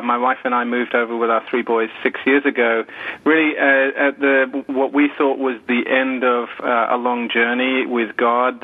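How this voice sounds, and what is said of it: British accent. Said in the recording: “as you can tell from my accent, I'm not from around here. I'm from the UK.”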